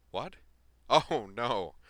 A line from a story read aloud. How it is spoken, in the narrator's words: she said, laughing